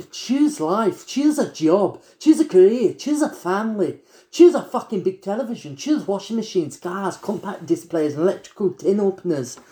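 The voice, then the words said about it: Put-on Scottish accent. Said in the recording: “I'm really good at Scottish, but that's just because I love Trainspotting”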